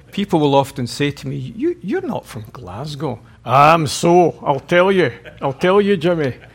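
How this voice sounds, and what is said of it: Glaswegian Scottish accent. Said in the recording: “an accent that you're not familiar with ... we're from different parts of Glasgow ... very rough parts of the city, as you can tell from our accents”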